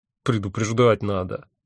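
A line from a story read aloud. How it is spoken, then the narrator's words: Good-natured grumble. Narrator (Russian): добродушно проворчал я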